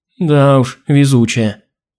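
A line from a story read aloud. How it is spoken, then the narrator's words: Glum. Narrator (Russian): уныло закивала Алина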